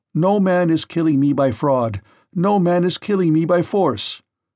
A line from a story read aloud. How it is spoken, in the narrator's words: Polyphemus shouted to them from inside the cave